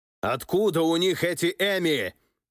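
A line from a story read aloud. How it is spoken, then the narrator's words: Shouting. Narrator (Russian): орал великий князь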